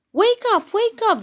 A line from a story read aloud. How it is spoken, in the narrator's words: they shouted